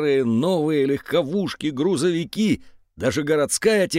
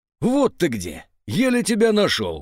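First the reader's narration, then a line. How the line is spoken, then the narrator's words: Exclamation. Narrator (Russian): воскликнул Зер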